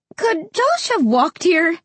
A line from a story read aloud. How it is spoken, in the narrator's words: Mom asked, her voice tight and higher than usual